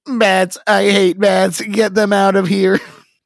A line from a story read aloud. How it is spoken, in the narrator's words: Lydia screams